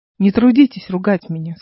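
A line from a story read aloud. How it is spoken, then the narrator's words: Gentle. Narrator (Russian): сказала мягко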